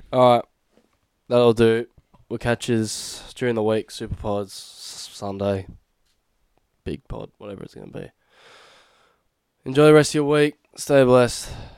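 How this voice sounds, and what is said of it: Tired, defeated-sounding voice. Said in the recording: “Why do I sound so defeated? I'm just tired, actually.”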